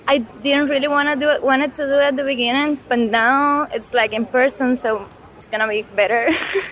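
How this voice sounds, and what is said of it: Cuban Spanish accent. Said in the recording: “since I'm Cuban ... And I have an accent”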